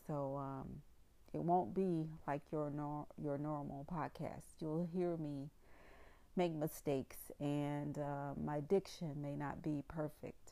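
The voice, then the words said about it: Southern American accent with twang. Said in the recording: “I'm from the South. I have a southern twang.”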